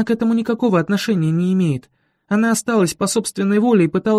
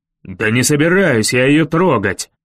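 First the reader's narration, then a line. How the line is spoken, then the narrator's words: Sudden roar. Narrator (Russian): вдруг взревел он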